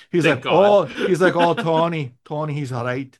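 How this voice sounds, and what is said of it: Attempted Scottish accent. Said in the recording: “I can't do his Scottish accent”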